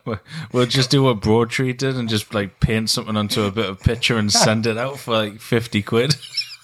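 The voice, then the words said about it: Geordie Northumbrian English accent. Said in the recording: “it is a renowned like accent. ... Like Geordies in general. ... we're Northumbrians, pretty much.”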